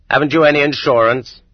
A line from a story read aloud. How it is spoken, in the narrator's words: he barks curtly